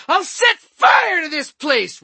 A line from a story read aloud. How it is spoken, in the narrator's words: Renegade shrieked